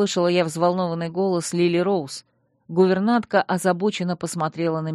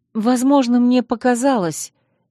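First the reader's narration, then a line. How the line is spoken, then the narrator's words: Uncertain, hesitant. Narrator (Russian): неуверенно сказала я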